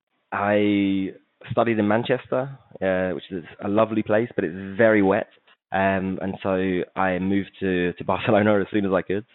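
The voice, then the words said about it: English accent. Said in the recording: “as I've probably given away from my accent, I'm English.”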